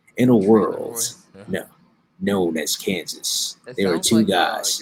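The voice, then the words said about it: Deep dramatic movie-trailer narrator voice. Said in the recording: “in my trailer voice. I'm going to do a whole show under my trailer voice.”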